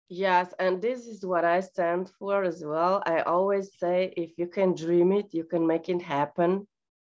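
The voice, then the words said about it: Speaks with a noticeable accent. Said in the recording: “that nice, lovely accent”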